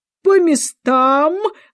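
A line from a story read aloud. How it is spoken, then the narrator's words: Thunderous shout, queen. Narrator (Russian): громовым голосом крикнула королева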